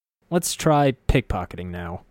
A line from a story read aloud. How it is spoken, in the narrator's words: I sighed